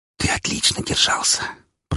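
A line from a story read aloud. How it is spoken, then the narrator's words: Whisper in ear. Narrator (Russian): прошептала на ухо Вика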